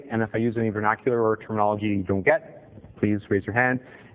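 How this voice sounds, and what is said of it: Strong Canadian accent. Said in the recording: “I have a tendency to A, speak with an atrocious Canadian accent... I tend to speak a little bit quickly”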